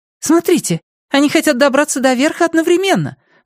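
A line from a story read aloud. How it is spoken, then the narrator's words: Exclaiming. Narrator (Russian): воскликнула Ио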